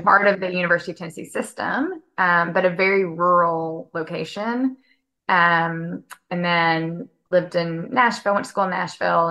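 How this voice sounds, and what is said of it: Regional Tennessee accent. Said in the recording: “where's your accent from? ... I grew up in Northwest Tennessee”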